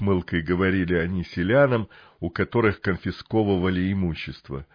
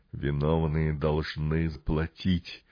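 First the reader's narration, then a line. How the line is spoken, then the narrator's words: Quiet, icy resolve. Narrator (Russian): тихо проговорил он тоном, в котором слышалась ледяная решимость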